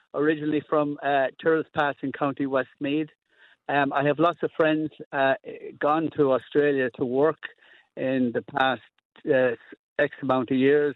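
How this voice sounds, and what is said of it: Strong Irish brogue. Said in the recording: “you never lost your accent ... I'm very proud to have my Irish accent. I have a big brogue”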